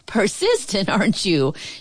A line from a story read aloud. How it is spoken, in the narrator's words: she chuckled